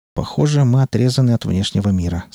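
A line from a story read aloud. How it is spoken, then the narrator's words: Plain. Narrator (Russian): сказал он Скалли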